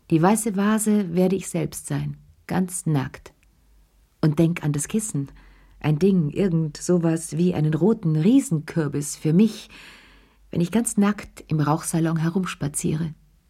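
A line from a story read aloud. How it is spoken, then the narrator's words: Brusque interruption. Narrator (German): unterbrach er sie ziemlich schroff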